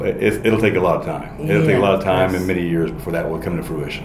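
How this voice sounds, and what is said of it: Tennessee drawl, fast talker. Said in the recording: “Is there a classy Tennessee accent? ... you still have that draw going on. I mean, I have the draw, but I talk fast.”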